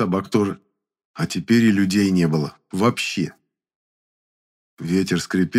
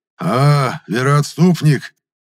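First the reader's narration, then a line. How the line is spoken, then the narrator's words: Hoarse. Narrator (Russian): хрипло сказал он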